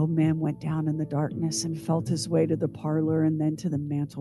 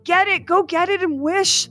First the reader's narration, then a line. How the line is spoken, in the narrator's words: cried the old woman, quivering with excitement